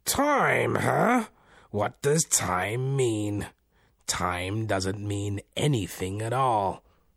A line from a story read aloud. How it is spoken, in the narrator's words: roared with laughter and said, as if imitating the voice of an older man